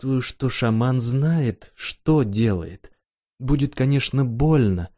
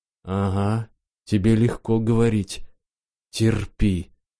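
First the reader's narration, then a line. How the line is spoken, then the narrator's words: Groaned. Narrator (Russian): простонал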